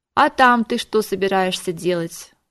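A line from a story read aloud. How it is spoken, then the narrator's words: Weary exasperated sigh. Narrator (Russian): устало вздохнул Дон Мигель, отчаявшись достучаться до разума ненормальной женщины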